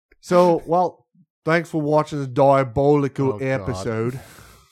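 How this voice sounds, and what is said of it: Deliberately bad English accent. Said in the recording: “I'm specifically doing a very bad English accent ... I don't think I can do a good English accent”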